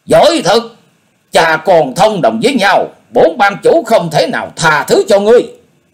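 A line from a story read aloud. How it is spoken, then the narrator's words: Loud shout, injured man. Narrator (Vietnamese): Quái Cơ Hùng bị thương chưa khỏi, quát lớn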